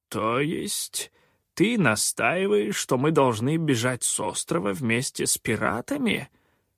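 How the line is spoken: Quavering mutter. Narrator (Russian): дребезжащим голосом пробормотал он

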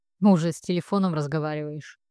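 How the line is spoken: Snide question. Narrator (Russian): ехидно спрашивает

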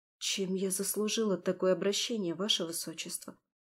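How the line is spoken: Quiet question. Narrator (Russian): тихо спросила Таира

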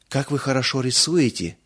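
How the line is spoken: Breathless exhale. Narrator (Russian): выдохнула Мирца

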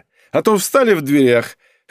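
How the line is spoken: Chuckling. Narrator (Russian): хохотнула она

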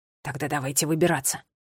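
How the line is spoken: Determined whisper. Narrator (Russian): решительно прошептал Милан

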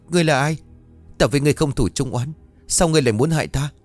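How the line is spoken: Frightened scream. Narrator (Vietnamese): sợ hãi mà hét toáng

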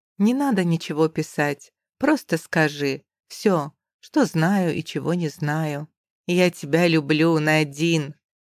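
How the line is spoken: Soft, breathy, intimate. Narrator (Russian): мягко проговаривает Линч, волнуя дыханием кожу

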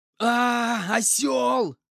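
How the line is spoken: Shouting in unison. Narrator (Russian): хором закричали мы в один голос

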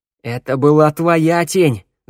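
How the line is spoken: Yelling. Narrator (Russian): заорал Тео

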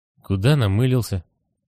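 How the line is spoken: Sleepy dead man asking. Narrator (Russian): сонно спрашивает мертвец

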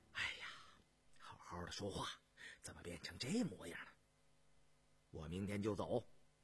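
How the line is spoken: Breathless question. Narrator (Chinese): 罗振邦便赶着李福，喘吁吁地问道

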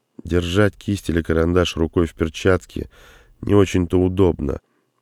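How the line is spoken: Sad smiling voice. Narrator (Russian): грустно улыбнулась Синди

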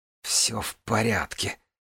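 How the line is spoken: Hissed through clenched teeth. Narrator (Russian): прошипела Джанель сквозь стиснутые зубы

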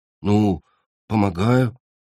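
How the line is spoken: Embarrassed grumble. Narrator (Russian): смущенно буркнул земляной

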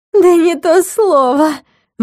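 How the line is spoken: Nervous giggling exclamation. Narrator (Russian): воскликнула Алина, нервно хихикая

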